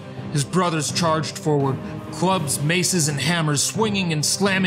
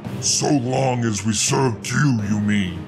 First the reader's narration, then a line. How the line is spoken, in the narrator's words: He growled, raising his voice to a roar